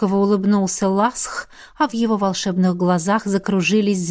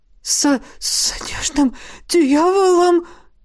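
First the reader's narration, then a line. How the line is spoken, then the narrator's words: Stammering question. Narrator (Russian): заикаясь, переспросил он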